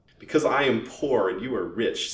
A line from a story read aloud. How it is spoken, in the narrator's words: said Mrs